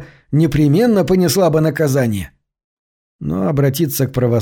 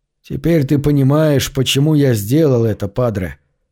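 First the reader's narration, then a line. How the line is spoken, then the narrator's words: Steadied voice, question. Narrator (Russian): спросил, как только овладел своим голосом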